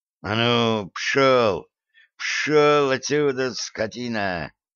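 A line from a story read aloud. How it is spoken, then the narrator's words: Angry mutter. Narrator (Russian): злобно пробормотал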